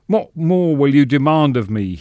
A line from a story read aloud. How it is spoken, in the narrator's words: moans